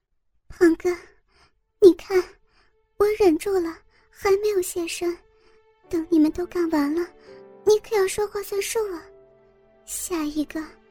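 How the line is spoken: Wry smile. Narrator (Chinese): 我苦笑着对胖子说道

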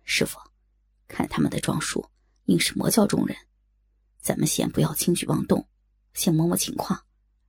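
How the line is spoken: Low whisper. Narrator (Chinese): 在小龙女耳边低声道

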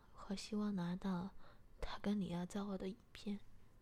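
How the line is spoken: Smiling. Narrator (Chinese): 我笑了笑，便说

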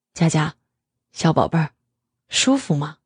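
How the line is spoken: Man asking quietly. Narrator (Chinese): 男人又低声问道

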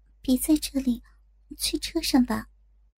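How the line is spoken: Quiet, hushed. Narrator (Chinese): 向宇飞小声的说着

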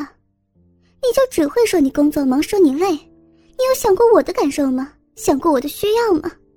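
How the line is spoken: Loud. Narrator (Chinese): 我大声说道

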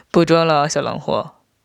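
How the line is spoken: Snickering. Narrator (Chinese): 我嘿嘿笑道

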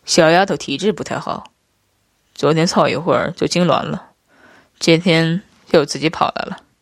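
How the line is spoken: Flat, casual introduction. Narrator (Chinese): 夫君淡淡介绍道

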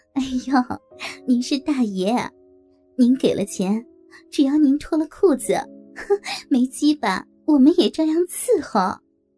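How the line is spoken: Flirtatious laughter. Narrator (Chinese): 浪浪的笑着

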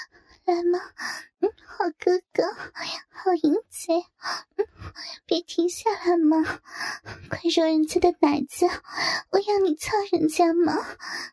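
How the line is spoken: Soft breathy moaning call. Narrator (Chinese): 莹莹娇喘着轻声的呼唤

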